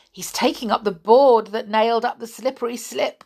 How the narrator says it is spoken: giggled Joe

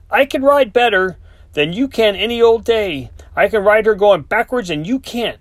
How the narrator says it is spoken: yelled back

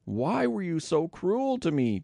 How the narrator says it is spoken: Jacob moaned

